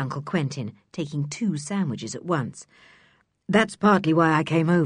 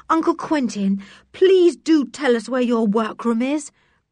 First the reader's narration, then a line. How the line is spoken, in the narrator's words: begged Dick, feeling that he could not wait a single moment more